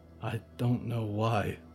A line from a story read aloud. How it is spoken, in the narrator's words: Moth said quietly